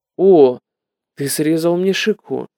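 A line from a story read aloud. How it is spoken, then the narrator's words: Gentle. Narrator (Russian): Прабхупада лишь мягко сказал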